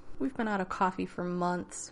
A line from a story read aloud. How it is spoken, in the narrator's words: he said mournfully